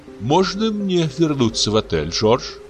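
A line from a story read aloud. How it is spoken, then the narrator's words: Timid question. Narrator (Russian): робко спрашивала она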